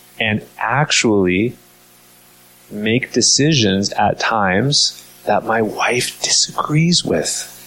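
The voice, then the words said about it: Whispering playfully. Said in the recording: “I'm kind of being a little bit funny by kind of whispering it like this”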